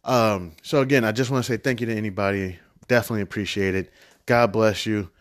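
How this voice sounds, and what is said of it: Low monotone voice. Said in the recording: “my low monotone voice”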